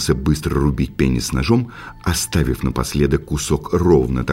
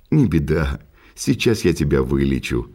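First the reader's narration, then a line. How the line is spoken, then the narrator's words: Laughing. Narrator (Russian): рассмеялся Уанкани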